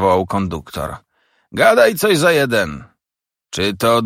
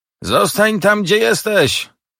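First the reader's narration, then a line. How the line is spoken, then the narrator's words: Conductor calling out. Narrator (Polish): zawołał konduktor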